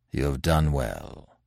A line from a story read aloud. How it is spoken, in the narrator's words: said Manfred gravely